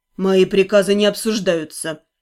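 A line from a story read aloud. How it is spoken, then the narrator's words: Cold statement. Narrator (Russian): холодно уведомил он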